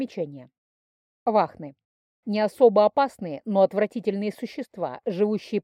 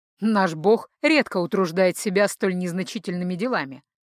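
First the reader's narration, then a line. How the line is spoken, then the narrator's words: Wry snort. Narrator (Russian): хмыкнул Ранрео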